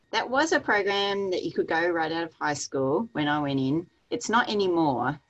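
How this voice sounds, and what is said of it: Australian accent. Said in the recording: “you have a fabulous accent ... I'm from Australia.”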